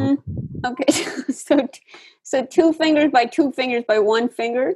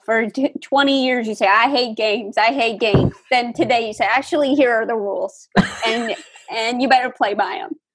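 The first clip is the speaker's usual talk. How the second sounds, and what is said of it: Imitates another person's voice. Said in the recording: “this is my impression of you”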